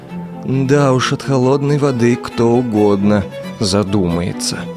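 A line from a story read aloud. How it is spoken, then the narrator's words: Grumbled. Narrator (Russian): буркнул Бобик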